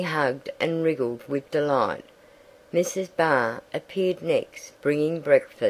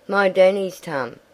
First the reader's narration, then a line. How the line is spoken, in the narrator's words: Teddy shouting